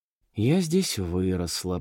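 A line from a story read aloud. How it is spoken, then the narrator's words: Muttering. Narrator (Russian): пробормотала Лена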